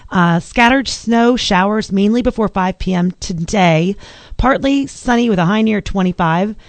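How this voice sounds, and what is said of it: Strained voice, losing her voice. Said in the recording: “as I'm losing my voice again.”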